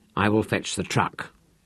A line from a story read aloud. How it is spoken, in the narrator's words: Rolf muttered